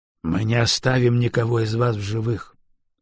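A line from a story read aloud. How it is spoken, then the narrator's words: Calm. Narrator (Russian): спокойно сказал Андрей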